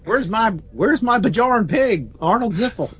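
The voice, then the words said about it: Put-on Southern accent. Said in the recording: “I did that with a southern accent”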